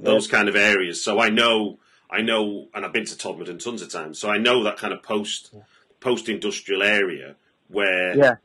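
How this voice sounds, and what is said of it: North Manchester English accent. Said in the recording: “I'm from North Manchester... you can tell by your accent”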